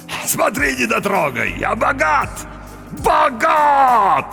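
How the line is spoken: Shouted. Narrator (Russian): закричал он

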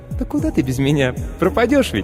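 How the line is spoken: Machine squeak. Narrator (Russian): Пискнул автоклав

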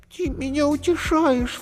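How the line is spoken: Sobbing. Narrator (Russian): всхлипнула Зайка

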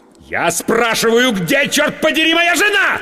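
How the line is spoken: Losing temper, yelling. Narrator (Russian): Сорвавшись, заорал я

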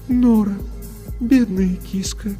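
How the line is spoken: Sad. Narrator (Russian): печально произнес голос Софии

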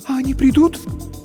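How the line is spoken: Frightened whisper. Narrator (Russian): испуганно прошептала Инна

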